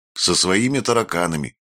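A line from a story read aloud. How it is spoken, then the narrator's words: Plain. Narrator (Russian): сказал Блуи Спираль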